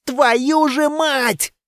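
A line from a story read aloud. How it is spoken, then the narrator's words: Yelling. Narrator (Russian): заорал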